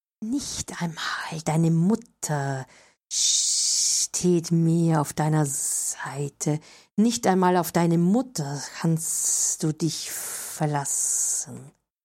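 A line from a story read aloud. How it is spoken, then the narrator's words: Whisper. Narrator (German): flüsterte die Schlange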